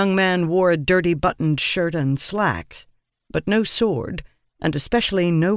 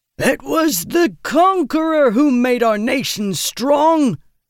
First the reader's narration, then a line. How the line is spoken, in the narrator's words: the Dawnist bellowed over the boos and jeers